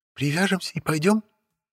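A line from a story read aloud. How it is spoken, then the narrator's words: Timid. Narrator (Russian): робко уточнила Лилия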